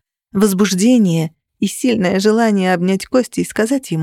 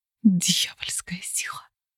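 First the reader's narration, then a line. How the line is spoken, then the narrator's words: Mother whispering. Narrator (Russian): прошептала мать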